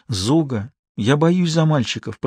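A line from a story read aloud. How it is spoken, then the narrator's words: Whispered. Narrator (Russian): прошептала Алетта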